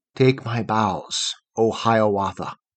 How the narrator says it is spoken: it whispered, bending downward

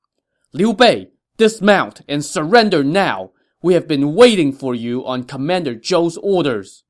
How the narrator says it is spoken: The two generals at the head of this roadblock shouted sternly

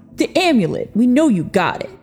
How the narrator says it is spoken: the man said, sneering in what Victor thought was truly a pastiche of intimidation

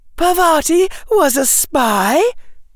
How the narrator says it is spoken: gasped Hannah

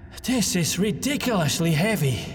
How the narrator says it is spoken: Gustav panted after an initial attempt

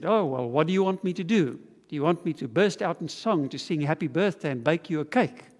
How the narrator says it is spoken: very roughly, her companion said

